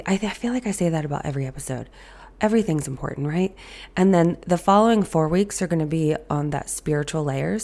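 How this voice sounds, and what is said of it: Raspy, hoarse voice. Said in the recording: “As you can hear in my voice, I'm very raspy. ... you're going to hear this raspy voice ... My voice does not sound good”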